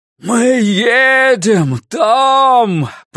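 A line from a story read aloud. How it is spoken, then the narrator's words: Roaring. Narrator (Russian): проревел он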